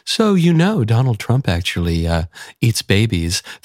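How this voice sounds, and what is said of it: Calm, nice NPR voice. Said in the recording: “they'll do it in that really nice NPR voice ... they sound really calm and normal”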